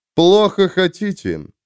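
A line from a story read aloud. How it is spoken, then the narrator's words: Mocking. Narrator (Russian): насмешливо сказал господин Мардукхет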